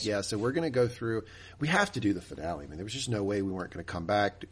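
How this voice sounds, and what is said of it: Slightly off, sick-sounding voice. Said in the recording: “I didn't have a voice yesterday. As you can tell, my voice is a little off today”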